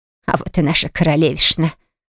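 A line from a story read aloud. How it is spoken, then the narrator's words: Mocking hmph. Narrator (Russian): хмыкнула Тиана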